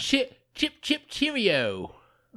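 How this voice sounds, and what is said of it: Bad put-on British accent. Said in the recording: “Was that a British accent? ... That was terrible.”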